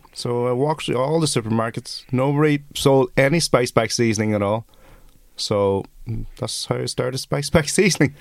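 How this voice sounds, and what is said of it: Irish accent. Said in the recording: “I sound really Irish.”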